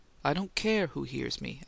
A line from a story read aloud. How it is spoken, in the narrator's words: Adams said harshly, though he tempered his loudness